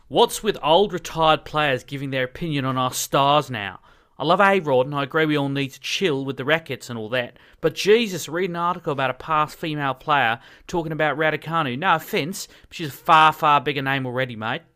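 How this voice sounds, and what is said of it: Imitation of Nick's accent. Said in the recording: “I'll read it out for you in Nick's accent ... It didn't seem mate. I added that for effect.”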